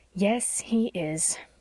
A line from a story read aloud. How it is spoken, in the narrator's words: admitted Miss Cornelia rather sadly